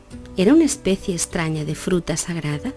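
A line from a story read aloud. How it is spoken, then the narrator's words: Plain. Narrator (Spanish): dijo un tercero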